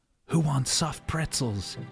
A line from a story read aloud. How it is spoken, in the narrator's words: He murmured to no one in particular